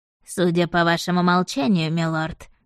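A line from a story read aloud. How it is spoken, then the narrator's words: Mocking. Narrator (Russian): насмешливо произнес мистер Готфри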